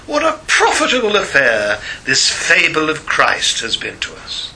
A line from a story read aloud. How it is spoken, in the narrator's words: He is known to have sneered and said